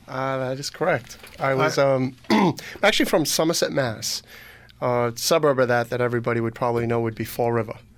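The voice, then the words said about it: Massachusetts accent. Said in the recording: “I hear a Massachusetts accent ... That's not an Eastern Connecticut accent”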